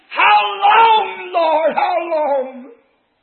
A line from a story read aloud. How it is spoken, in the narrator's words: the souls of those mothers under the altar of God are screaming